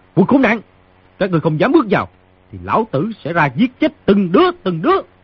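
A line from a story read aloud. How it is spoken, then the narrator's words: Shouting. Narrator (Vietnamese): người trong phòng quát tiếp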